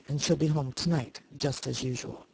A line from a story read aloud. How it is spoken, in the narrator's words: Comstock icily